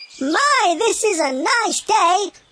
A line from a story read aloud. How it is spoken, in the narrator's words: chirped as he flew high in the sky